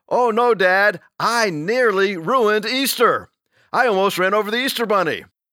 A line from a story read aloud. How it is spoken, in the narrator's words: the son exclaims